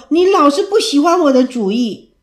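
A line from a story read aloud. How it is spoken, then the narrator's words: Shouting, sobbing. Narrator (Chinese): 爱妃开始大吼大叫，她呜咽地说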